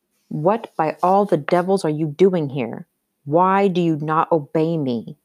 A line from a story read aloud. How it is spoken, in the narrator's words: he barked in German, trembling with anger despite his efforts to control himself